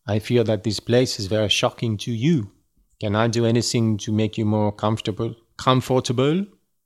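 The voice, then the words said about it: Mediocre put-on French accent. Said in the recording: “I'll read it in a French accent ... I am reading it with a French accent just because it is fun for me ... is it a good French accent? No.”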